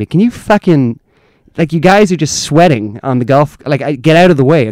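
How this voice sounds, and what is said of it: Angry American woman voice. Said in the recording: “I do a good American. I do a good American one. A good pissed off American woman.”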